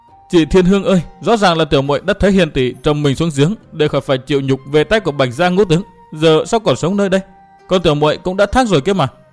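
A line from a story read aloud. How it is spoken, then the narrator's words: Girl sobbing. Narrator (Vietnamese): Sau khi tỉnh lại, cô bé khóc nức nở mà rằng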